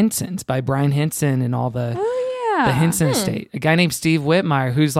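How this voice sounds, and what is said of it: Usual voice. Nothing is said of it.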